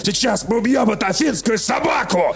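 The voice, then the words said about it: Put-on Greek accent, aggressive shout. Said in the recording (Russian): “разговаривают, естественно, только вот так ... с греческим акцентом”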